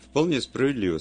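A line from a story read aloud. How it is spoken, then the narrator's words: Plain. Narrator (Russian): сказал я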